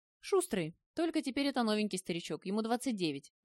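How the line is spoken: Laughing. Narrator (Russian): засмеялся Володька

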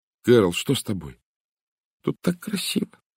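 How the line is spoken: Sob. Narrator (Russian): она всхлипнула

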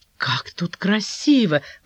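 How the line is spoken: Excited exclamation. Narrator (Russian): воскликнула она, возбужденно

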